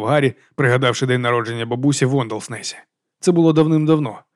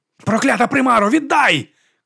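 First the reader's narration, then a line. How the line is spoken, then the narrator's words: Shouting, choking with sobs. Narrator (Ukrainian): крикнув він, задихаючись від плачу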